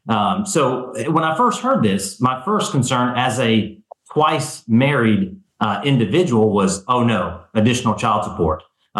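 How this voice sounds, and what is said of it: Southern American accent. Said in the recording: “don't let my accent fool you. I am not in Alabama. I am in a bordering state. I am in Georgia.”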